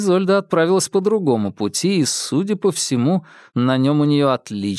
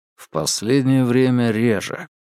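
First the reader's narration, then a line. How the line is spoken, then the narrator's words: Sighing. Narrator (Russian): вздохнув, уточнил Феликс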